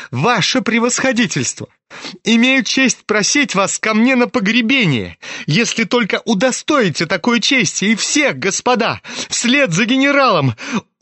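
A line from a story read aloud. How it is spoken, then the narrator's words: Mad laughter. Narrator (Russian): Он опять засмеялся, но это был уже смех безумного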